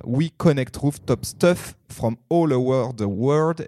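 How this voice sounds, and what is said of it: French-accented English, early-morning. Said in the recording (French): “Excusez-moi euh, cet accent euh, anglais matinal.”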